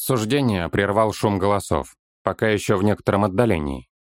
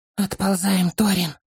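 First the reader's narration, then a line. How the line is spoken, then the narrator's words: Muffled, hollow voice. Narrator (Russian): глухо вымолвил он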